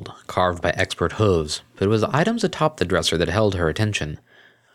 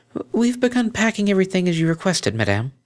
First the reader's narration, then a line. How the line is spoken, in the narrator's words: a timid young mare, swallowed nervously before replying